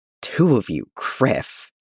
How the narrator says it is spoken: he mutters

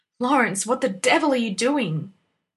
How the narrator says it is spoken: Granby called furiously from the edge of the wood

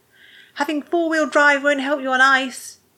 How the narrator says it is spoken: shouted at the car

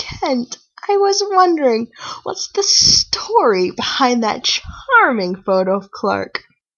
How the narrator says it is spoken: Martha laughed, remembering

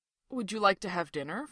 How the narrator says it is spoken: Fraser asks

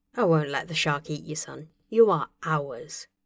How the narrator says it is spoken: Tony told him softly

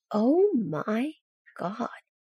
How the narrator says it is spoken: he says slowly

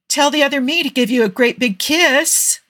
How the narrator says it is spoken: Tony said cheerfully

